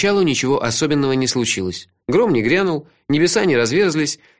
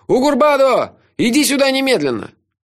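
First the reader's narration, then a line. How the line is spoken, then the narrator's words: Yelling. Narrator (Russian): заорал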